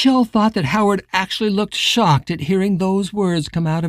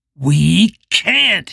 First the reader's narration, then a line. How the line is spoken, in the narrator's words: growled